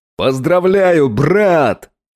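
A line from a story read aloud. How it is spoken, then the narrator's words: Yelling into ear. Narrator (Russian): заорал Макс мне в ухо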